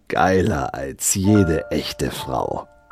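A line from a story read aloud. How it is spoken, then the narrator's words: Hissed. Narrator (German): zischte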